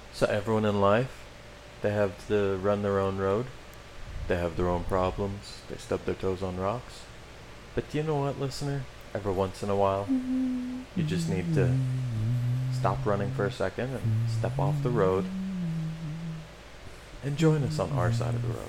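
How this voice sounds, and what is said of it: Mock public-radio announcer voice. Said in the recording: “I'm going to do my NPR voice.”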